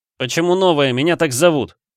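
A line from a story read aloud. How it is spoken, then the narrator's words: Indignant shout. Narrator (Russian): возмущенно выкрикнул я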